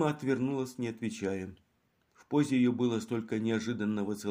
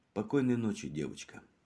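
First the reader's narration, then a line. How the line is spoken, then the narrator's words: Tender. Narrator (Russian): сказал он ласково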